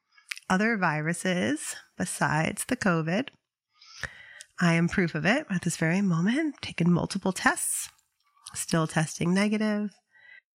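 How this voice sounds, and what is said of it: Slightly congested voice from cold. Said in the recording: “You can probably tell I have a little bit of a cold.”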